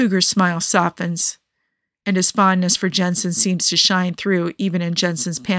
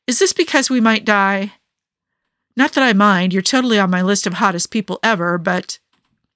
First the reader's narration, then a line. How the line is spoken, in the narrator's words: blurts out